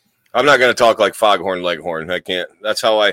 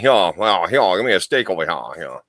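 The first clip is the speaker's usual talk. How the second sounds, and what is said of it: Poor Southern US accent impression. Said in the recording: “I have a terrible South impression... That's terrible”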